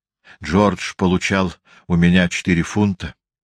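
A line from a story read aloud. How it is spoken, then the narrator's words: Agitated. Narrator (Russian): взволнованно продолжала Руби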